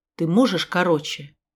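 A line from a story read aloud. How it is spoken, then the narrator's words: Rude question. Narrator (Russian): Наверное, грубо спросила я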